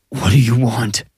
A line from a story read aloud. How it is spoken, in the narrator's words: Colt anxiously faced the murder victim turned murderer and asked